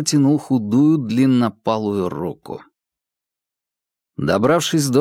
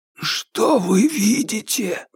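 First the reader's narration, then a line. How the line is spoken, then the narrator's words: Hoarse excited whisper from above. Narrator (Russian): донесся сверху хриплый, взволнованный шепот Джеймса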